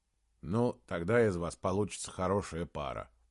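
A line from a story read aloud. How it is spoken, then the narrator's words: Grumbling. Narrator (Russian): проворчал Саймон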